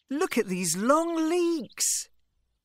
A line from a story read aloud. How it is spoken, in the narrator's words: Imran cried